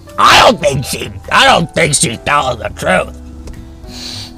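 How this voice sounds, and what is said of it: Imitates a 10-year-old's voice. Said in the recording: “That's a 10-year-old, by the way. That's my impression of a 10-year-old.”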